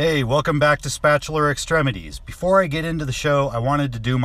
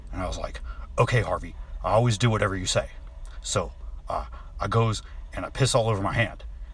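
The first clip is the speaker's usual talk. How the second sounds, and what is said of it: Imitates another person's voice. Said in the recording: “my Ron Perlman impression.”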